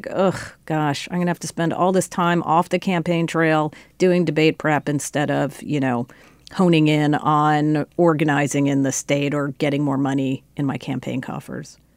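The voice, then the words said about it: Impression of a weary campaign staffer. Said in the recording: “That was a pretty good impression of what I hear out of the campaigns ... almost to a T.”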